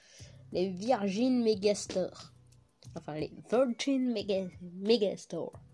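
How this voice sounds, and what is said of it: Franglais-accented English pronunciation. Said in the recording (French): “je le prononce avec mon accent fran franglish”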